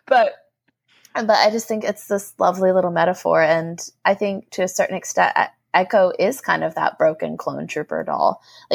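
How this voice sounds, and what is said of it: Hoarse, strained voice. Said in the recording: “Excuse me, it's my throat. ... losing my voice.”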